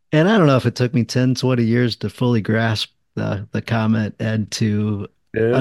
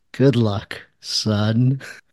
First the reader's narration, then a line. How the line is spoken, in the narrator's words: grin, starts chuckling, and he says